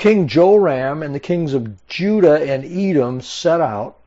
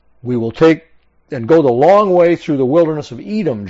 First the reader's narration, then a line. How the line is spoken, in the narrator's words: Joram answered